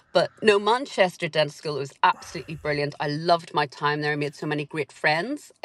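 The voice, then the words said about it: Posh Northern Irish accent. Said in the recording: “a very Northern Ireland accent... a posh Northern Irish accent... it must have mellowed in the intervening years”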